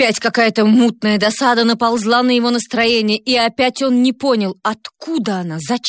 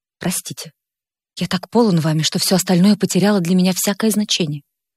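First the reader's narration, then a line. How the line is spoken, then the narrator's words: Quiet, forced calm. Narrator (Russian): стараясь придать своему лицу спокойное выражение, тихо сказал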